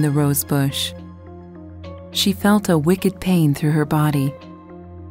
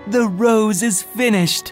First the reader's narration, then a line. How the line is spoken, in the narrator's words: tree's cries